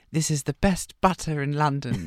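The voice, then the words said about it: Put-on posh British accent. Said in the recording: “a bit of a British accent ... in this like voice like that”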